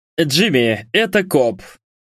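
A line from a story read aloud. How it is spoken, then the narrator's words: Growled. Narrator (Russian): прорычал один из байкеров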